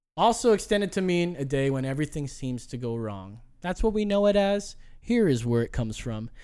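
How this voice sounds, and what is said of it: Usual voice. Nothing is said of it.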